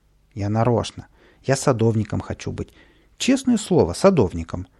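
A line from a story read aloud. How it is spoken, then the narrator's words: Exclamation. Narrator (Russian): воскликнул Каприска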